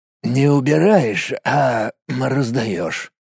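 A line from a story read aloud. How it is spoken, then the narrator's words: Hoarse voice. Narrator (Russian): хриплым голосом поправил его Олегыч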